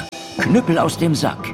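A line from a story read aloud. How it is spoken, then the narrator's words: Craftsman calling out. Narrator (German): Der Drechsler rief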